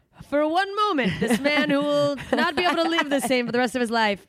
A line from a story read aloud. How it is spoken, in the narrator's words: he laughed